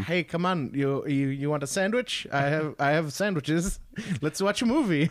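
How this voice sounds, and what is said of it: Attempted Guillermo del Toro impression. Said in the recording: “Guillermo del Toro has a very heartwarming accent ... I can't do Guillermo del Toro ... his accent's hard to do”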